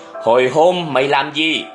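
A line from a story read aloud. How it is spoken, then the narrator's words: Stern gritted question. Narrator (Vietnamese): Ông giáo gằn giọng hỏi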